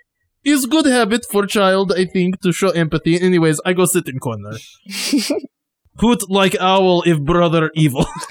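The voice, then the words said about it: Very strong, hard-to-understand accent. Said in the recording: “your accent sometimes is very, very strong, and it's really difficult to understand.”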